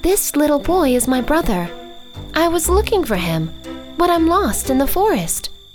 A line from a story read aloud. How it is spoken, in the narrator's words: says the girl